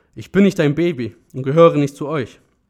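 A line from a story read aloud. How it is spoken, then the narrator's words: Loud, confrontational. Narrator (German): sagte sie laut in sein Gesicht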